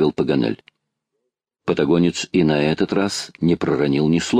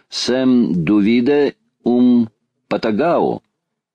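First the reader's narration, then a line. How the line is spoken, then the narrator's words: Slow teacherly question. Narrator (Russian): сказал географ, и, произнося медленно, как учитель в классе, спросил патагонца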